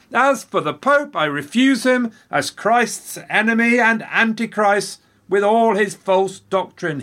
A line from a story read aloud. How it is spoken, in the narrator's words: he yelled